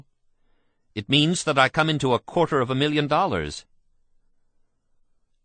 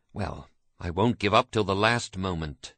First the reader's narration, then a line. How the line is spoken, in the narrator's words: he whispered